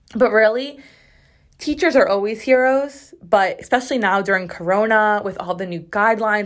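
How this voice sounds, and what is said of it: Sore, strained voice. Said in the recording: “my throat and voice are actually sore. Like, my throat is raw. I feel like my voice is strained just from talking so much”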